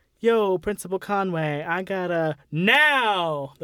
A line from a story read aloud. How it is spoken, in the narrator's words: the principal yelled